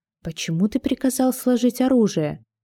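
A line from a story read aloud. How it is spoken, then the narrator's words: Quiet question. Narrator (Russian): Я тихо спросила у Гидеона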